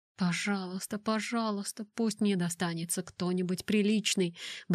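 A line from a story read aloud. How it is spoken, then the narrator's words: Muttering. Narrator (Russian): бормотал он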